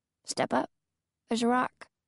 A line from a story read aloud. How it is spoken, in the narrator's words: murmuring